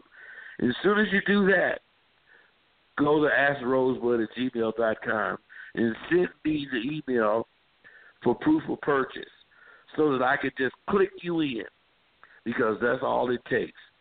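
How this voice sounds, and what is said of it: Strained, sick-sounding voice. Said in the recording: “my voice is starting to fuck up here. I've been sick.”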